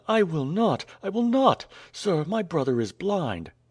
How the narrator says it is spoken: exclaimed Nadia

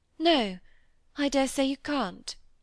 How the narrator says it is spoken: said Cynthia, with tears in her eyes, and very tenderly, as if in atonement for her late vehemence

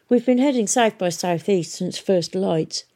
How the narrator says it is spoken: explained Hesta wearily

